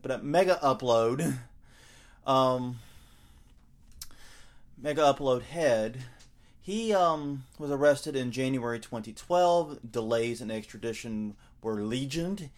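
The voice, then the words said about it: American Southern accent. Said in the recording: “a southerner here with my accent”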